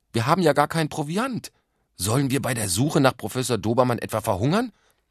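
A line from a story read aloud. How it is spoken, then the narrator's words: Calling out. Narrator (German): rief Katja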